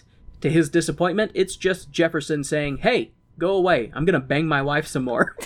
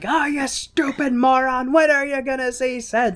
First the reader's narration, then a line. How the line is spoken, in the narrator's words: yelling